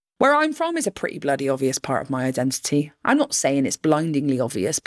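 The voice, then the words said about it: Sing-song Bristol English accent. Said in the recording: “My hometown is Bristol ... you've got the accent that proves where you're from ... your sing-songiness and your musicality”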